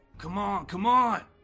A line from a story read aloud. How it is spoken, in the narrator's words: Steve gasping